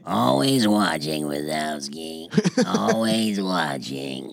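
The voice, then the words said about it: Impression of Roz from Monsters, Inc. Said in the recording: “the lady at the desk that says, Mike Wazowski... Because you do it the voice.”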